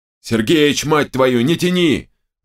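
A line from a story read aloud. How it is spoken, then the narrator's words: Yelling. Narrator (Russian): заорал Терехов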